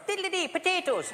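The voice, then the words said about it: Mock Irish accent. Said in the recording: “This would be an Irish person.”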